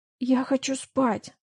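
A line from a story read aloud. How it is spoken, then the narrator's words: Angry whisper. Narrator (Russian): Злобно прошептала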